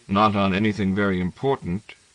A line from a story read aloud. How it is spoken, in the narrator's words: Emmanuel said dryly